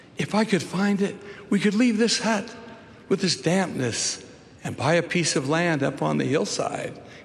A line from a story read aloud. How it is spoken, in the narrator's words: he pleaded with grandmother